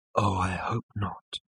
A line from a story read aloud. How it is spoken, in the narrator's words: breathed Ford